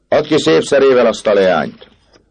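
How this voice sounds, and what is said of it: Stern shouted command. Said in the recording (Hungarian): “kiáltott az elöljáró szigorú hangon”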